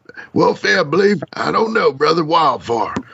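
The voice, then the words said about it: Imitates another person's voice. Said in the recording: “worst Tommy impersonation ever”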